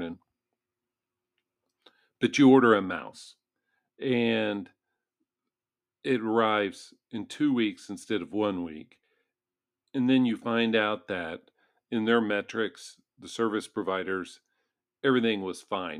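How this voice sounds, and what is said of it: Hoarse, scratchy voice. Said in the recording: “my voice is a little bit scraggly this morning”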